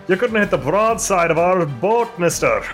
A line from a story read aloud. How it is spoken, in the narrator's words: laughing at you and calling out like